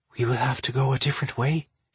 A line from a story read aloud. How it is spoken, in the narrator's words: she whispered